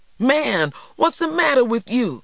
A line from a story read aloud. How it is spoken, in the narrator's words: TJ cried